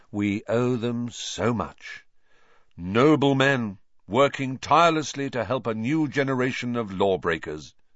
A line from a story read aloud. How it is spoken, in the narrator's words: said Fred solemnly